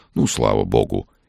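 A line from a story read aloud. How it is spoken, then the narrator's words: Sincere relieved sigh. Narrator (Russian): искренне вздохнул священник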